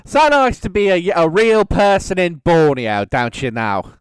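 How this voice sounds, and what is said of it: Bad put-on British accent. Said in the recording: “everyone who does a bad British accent does”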